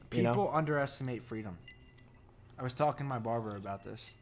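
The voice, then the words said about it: New Jersey accent. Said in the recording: “There's my Jersey accent.”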